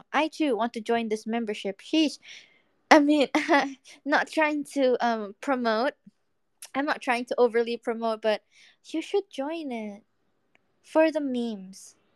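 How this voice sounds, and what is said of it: Put-on British accent. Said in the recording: “can you do impression of other livers opening with British accent?”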